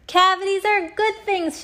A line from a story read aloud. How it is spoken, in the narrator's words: shouted Captain Plack